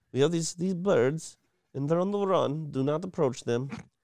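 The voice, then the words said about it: Poor British accent, sounds Eastern European. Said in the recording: “in a British accent, but I don't do British accents very well ... You sound more like Borat ... That wasn't British. That was Borat.”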